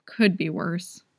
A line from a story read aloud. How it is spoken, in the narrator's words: grumbled